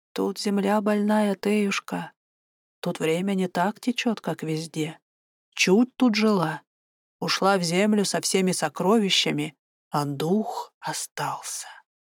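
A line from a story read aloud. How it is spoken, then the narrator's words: Old woman whispering. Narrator (Russian): Бабка шептала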